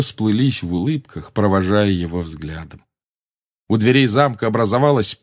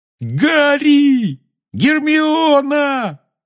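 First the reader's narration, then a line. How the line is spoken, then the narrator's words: Excited yell. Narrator (Russian): завопил Рон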